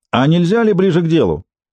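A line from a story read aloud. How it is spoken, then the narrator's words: Shout from the audience. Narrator (Russian): выкрикнул кто-то из зала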